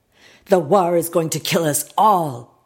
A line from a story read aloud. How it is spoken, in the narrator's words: he yelled